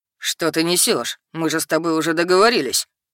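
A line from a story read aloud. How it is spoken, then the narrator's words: Beastly growl. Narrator (Russian): Рыкнул зверь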